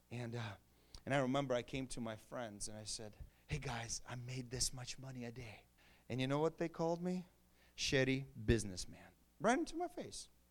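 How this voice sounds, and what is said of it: Non-native accent, bad pronunciation. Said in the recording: “My accent is bad, but you get it, not shady”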